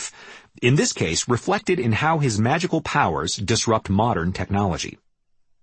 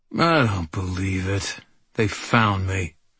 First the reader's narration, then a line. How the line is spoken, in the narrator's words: I muttered grimly